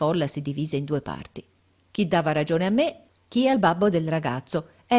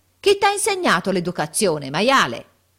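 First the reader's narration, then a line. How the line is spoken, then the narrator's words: Threatening yell. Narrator (Italian): minaccioso, urlando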